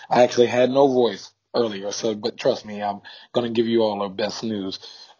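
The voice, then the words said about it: Strained, deeper voice after losing it. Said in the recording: “lose my voice playing a party game this past weekend ... my voice is a little bit deeper”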